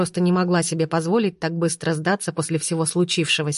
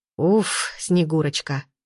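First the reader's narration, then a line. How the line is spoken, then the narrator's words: Noisy exhale. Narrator (Russian): шумно выдохнул Арсений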